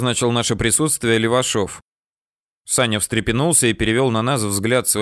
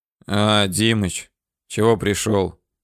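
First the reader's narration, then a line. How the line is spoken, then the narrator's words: Hoarse question. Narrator (Russian): хрипло спросил он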